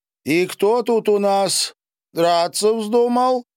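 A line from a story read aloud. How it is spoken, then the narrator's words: Loud question, woman. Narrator (Russian): громко спросила помещица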